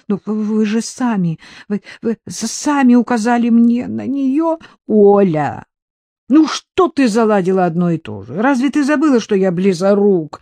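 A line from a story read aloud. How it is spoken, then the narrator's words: Helpless groan. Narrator (Russian): застонал он от бессилия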